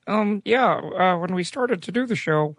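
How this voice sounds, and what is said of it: Imitates another person's voice. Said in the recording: “Can you do a Lucas voice? ... Very good. Very good. Good enough. ... he sounded like a Muppet for years.”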